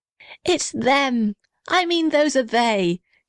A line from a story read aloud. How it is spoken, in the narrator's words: shouted the little red house happily